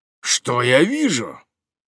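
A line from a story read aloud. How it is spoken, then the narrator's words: Exclaiming. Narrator (Russian): воскликнул он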